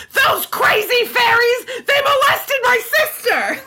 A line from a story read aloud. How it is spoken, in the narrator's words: was screaming